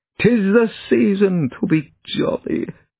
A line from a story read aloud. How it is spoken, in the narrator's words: chuckled softly